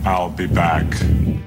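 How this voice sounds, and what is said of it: Arnold Schwarzenegger impression. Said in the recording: “his swing at the Arnold impersonation. Very impressive.”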